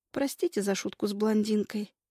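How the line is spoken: Quiet. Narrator (Russian): тихо говорю

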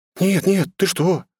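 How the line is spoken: Girl babbling. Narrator (Russian): залепетала девушка

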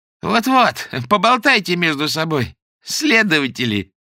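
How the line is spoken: Laughing woman. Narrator (Russian): рассмеялась им вслед докторша

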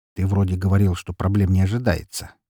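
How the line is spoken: Quiet reminder. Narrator (Russian): негромко напомнил я Коршунову

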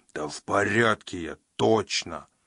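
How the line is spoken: Moaning. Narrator (Russian): простонал

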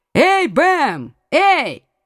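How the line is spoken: Loud shout. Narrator (Russian): громко крикнул герцог

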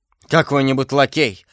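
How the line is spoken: Grumbled. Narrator (Russian): проворчал Д'Артаньян

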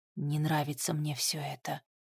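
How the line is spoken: Quiet. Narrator (Russian): тихо сказал Макс

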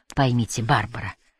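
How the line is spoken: Calm. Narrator (Russian): спокойно продолжил Ажар

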